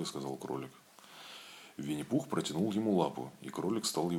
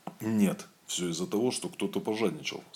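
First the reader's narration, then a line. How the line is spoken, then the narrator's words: Stern. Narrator (Russian): строго сказал кролик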